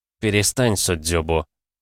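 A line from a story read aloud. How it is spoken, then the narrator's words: Calm. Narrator (Russian): спокойно произнес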